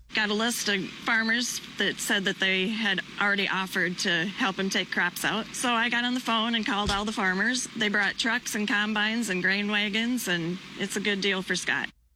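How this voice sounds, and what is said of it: Minnesotan accent. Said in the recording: “with that Minnesotan accent, she sounded like she was saying craps.”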